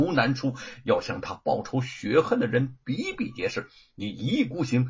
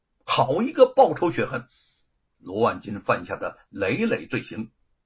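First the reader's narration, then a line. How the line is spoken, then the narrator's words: Angry. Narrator (Chinese): 沈坤怒道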